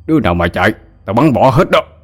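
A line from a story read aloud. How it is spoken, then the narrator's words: Angry shout. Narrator (Vietnamese): ông Hội tức giận quát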